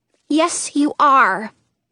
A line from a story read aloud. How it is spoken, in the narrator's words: Lolly says, her voice firm